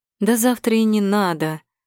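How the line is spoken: Relieved breath. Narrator (Russian): С облегчением выдохнула я

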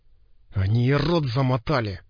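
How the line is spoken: Agitated hiss. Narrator (Russian): прошипел химик

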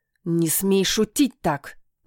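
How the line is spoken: Growled. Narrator (Russian): прорычала я

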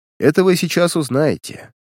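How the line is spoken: Detective calmly objecting. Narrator (Russian): спокойно возразил сыщик

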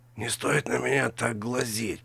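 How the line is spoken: Hiss. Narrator (Russian): прошипел Вицкус

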